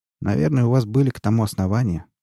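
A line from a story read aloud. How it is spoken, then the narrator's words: Bored voice. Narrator (Russian): скучным голосом сказал Нунан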